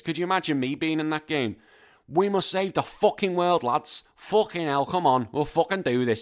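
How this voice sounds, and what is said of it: Non-posh regional British accent. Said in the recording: “I love how they don't get my accent to play this ... It wouldn't really work. It just would not work. It was my accent. It's got to be that posh British accent”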